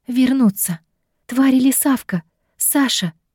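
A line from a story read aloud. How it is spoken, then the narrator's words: Hoarse, breathless. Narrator (Russian): Хриплое дыхание перемежалось со словами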